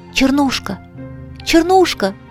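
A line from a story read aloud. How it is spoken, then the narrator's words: Undertone. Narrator (Russian): сказал наконец вполголоса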